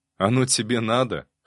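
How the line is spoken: Snorting. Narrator (Russian): хмыкнул

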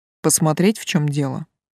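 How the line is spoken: Surprisingly calm questioning. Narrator (Russian): удивительно спокойно уточнил этот непостижимый парень

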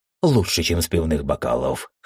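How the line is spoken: Snorting. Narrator (Russian): хмыкнул

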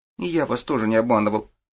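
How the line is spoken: Sullen mumble, boy. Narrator (Russian): хмуро пробурчал мальчик

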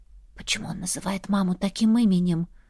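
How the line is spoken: Whispered question. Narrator (Russian): Уточнила шепотом

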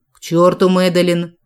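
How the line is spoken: Growled. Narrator (Russian): рыкнул Джек

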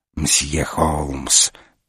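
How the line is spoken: Beckoning hiss. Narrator (Russian): призывно прошипел Жюв

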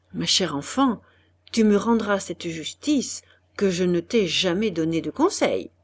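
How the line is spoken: Almost whispered. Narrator (French): Après un silence assez long, Monsieur de Pradon dit presque à voix basse

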